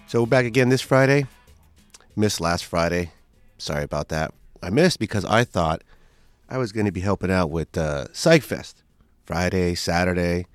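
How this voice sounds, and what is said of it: Slightly nasal, congested voice. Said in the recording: “If I sound a little nasally, that's just part of the recovery process”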